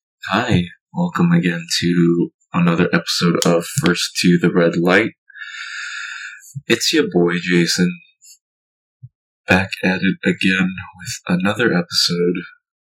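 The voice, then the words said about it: Slightly sick, scratchy-throated voice. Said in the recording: “my voice sounds weird... I felt a little sick. I felt a little scratch in the throat”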